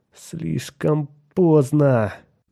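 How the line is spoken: Groan. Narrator (Russian): простонал Кертис

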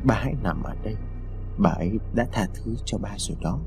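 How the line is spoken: Soft, quiet. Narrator (Vietnamese): Lý khẽ nói

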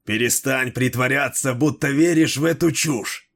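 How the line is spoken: Growling. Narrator (Russian): прорычал Дрибок

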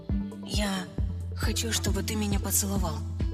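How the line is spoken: Whisper. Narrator (Russian): прошептала я

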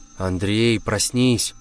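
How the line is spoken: Plain. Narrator (Russian): сказала я

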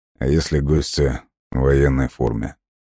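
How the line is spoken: Tired wry smirk. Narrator (Russian): Устало усмехнулся Лесков

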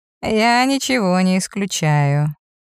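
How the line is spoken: Thoughtful. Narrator (Russian): задумчиво произносит

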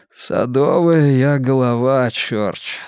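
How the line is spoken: Hoarse voice. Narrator (Russian): сказал хриплым голосом

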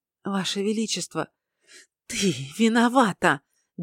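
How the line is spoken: Hissing like a snake. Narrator (Russian): Диана шипела, словно змея

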